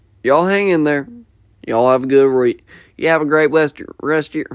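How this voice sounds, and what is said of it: Put-on American country accent. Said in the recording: “I can't talk in this country accent anymore.”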